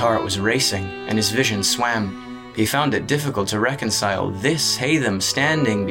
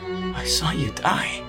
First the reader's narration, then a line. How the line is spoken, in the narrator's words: he said in a small, awed voice